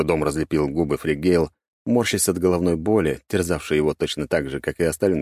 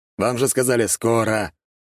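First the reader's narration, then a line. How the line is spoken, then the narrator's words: Grumbling. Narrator (Russian): проворчал Дьерк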